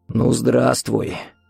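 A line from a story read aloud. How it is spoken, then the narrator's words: Hoarse rasp. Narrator (Russian): прохрипел Виктор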